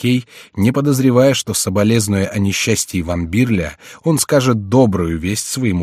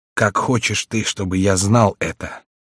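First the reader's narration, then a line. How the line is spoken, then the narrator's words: Barely audible. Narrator (Russian): отвечал Бокстель едва внятным голосом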